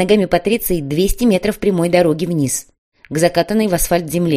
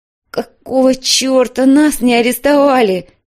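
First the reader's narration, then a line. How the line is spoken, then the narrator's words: Groaned. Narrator (Russian): простонала Матильда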